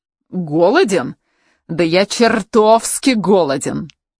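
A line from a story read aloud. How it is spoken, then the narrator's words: Growled. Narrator (Russian): прорычал Рауль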